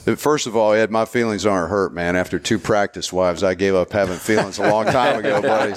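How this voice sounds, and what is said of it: Southern American accent. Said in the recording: “I know my accent is indistinguishable. ... I'm the only Southern guy with the accent”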